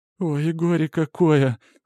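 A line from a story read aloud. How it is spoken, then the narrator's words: Whimpering lament. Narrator (Russian): скулит Катька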